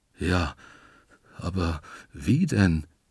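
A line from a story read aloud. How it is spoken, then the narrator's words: Whining. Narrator (German): jammert der Wandelwurz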